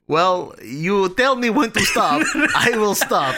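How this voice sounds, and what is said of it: Convincing put-on Eastern European accent. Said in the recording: “with an Eastern European accent ... I have only one accent ... I think you did a really good job with it ... It was a good representation”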